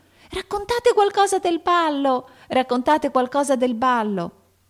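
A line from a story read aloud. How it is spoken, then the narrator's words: Two sleepy voices shouting. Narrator (Italian): due voci insonnite gridarono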